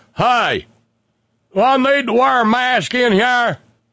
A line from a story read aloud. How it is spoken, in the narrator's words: a guy comes in and hollers